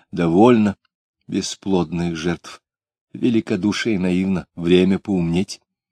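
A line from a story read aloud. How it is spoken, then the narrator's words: Quiet commanding voice. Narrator (Russian): Тихо, но так, что все замолчали, сказала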